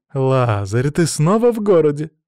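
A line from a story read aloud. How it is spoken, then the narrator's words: Joyful exclamation. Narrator (Russian): радостно воскликнула Тальберг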